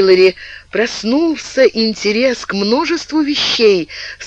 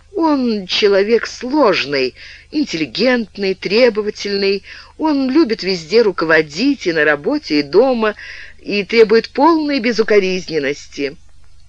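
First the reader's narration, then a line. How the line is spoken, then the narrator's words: Sighing candid admission. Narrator (Russian): Александра вздохнула и честно признала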